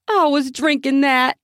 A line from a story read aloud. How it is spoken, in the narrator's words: Andrea shouted